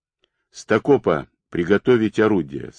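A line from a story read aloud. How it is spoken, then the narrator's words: Calm order, hidden anxiety. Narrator (Russian): спокойно приказал Ковалев, хотя на душе у него скребли кошки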